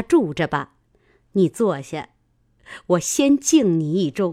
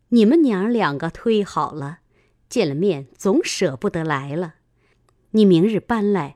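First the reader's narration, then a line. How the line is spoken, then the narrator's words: Laughing. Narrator (Chinese): 尤氏笑说道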